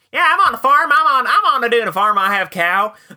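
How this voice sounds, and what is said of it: Imitated Southern US accent. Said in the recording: “you know how we do Southern U.S. accent imitations ... do that impression of them”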